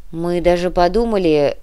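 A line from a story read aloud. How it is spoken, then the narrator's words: Sudden mumble. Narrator (Russian): неожиданно буркнул Никита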